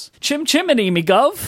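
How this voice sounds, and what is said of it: Exaggerated rough old British accent. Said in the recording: “both of our accents are very different now ... I hate the way I sound in the early episodes ... you sound less like you've come from the gutter”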